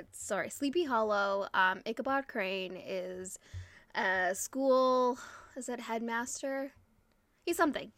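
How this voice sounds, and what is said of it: Strained, fading voice. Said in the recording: “I'm losing my voice ... Our voices get tired.”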